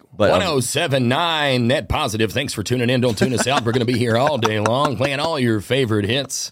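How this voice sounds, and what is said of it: Radio DJ announcer voice. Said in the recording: “Like, radio what voice? Do you mean? Like that radio thing I do all the time? ... Yeah, radio voice.”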